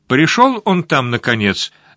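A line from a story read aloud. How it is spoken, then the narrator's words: Sharp question over phone. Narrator (Russian): резко спросила в телефонную трубку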